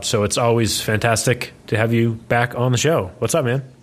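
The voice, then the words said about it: Polished radio announcer voice. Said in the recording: “radio voice ... that you bring out when you do the intro ... A nice change from the usual”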